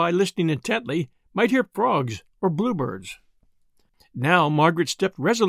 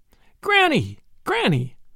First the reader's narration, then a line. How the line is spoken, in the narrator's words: shouted they